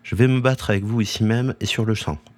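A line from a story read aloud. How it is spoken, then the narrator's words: Plain. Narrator (French): lui ai dit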